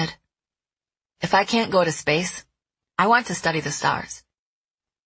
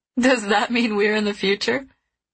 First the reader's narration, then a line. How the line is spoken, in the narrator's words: Trace laughed